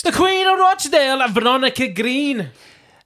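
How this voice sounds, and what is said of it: Put-on Manchester accent, sounds Scottish. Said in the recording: “That Scottish Manchester accent. ... That was apparently Manchester. ... You sounded like Shrek.”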